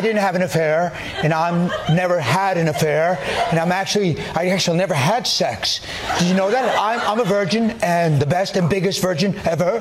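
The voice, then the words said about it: Poor Donald Trump impression. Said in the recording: “I do the worst Trump impersonation. ... I suck at doing Trump.”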